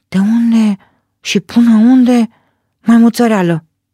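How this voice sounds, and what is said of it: Whispered line. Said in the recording (Romanian): “Șoptește porcul”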